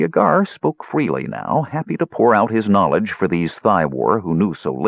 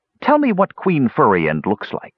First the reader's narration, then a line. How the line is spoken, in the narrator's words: Pitrick snapped